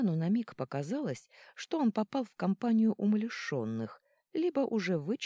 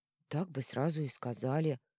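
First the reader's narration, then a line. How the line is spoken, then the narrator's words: Gloomy grumble. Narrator (Russian): мрачно проворчала одна из блондинок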